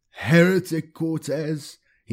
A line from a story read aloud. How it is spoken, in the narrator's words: he wailed